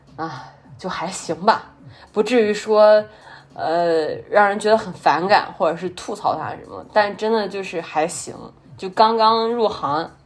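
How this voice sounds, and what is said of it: Mandarin with Henan accent. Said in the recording (Chinese): “我发现我真的有口音，我带的是有正儿八经的河南话口音的 ... 但是我经常是多么多么东北腔”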